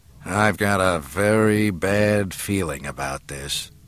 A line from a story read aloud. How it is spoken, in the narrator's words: Solo murmured